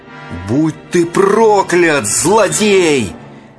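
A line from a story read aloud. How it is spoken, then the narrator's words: Shout. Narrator (Russian): закричал Зигфрид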